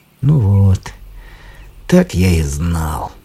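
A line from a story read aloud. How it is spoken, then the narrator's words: Glum. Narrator (Russian): сказал уныло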